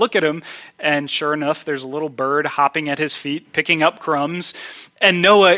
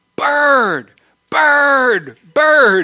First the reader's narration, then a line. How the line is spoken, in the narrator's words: Noah is screaming